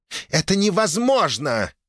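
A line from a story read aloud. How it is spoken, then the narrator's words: Angry growl, woman. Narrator (Russian): гневно рыкнула супруга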